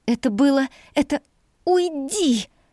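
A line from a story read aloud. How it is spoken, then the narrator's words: Frightened breathless gasp. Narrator (Russian): Выдохнула я испуганно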